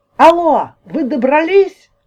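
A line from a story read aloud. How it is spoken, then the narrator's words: Shouting into phone. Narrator (Russian): орала в трубку тетя Валя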